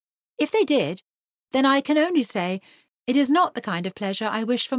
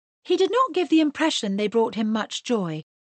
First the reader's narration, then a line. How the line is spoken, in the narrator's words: said Mr